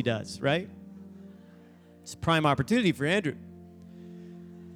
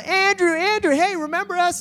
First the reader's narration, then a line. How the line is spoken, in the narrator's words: they're all yelling